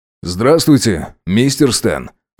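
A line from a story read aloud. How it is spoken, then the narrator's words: Calm greeting. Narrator (Russian): спокойно поздоровался Макс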